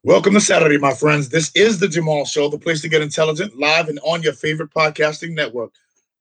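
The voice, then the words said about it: Hoarse, worn-out voice. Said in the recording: “You see my voice is gone, right?”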